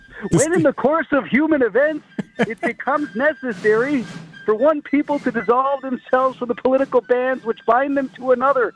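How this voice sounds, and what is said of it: Impression of Bob Donovan. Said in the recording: “your Bob Donovan impression”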